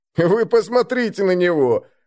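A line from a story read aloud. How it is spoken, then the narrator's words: Loud laughter. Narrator (Russian): расхохотался Дарри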